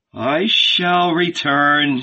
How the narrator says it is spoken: said Jesus with a sigh

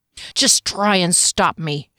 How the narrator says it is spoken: snarled

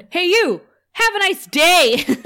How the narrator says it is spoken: The Anya shouts at the woman

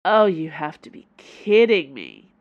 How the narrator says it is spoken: Dana moaned

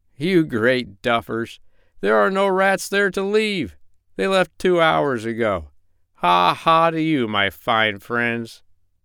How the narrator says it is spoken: Jip shouted across from the other ship

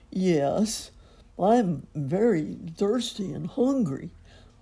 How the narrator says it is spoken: whined the dog

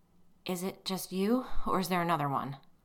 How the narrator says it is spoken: I asked it in a shaky voice

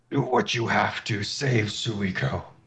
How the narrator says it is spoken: He just roars

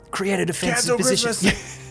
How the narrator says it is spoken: He yells at them

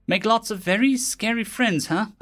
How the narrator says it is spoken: I said, chuckling nervously

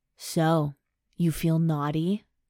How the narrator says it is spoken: His voice rumbles in my ear

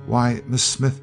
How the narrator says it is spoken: she faltered

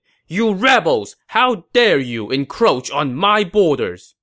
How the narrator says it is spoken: Han De ... shouted

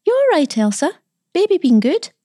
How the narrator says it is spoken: she called out quite cheerfully

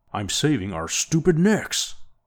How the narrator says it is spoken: barked Orne

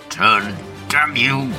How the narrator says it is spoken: growls, straining every muscle

